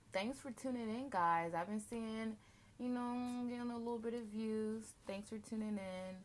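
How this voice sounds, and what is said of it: Flat, monotone voice. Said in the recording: “my voice is so monotone... it does sound so monotone”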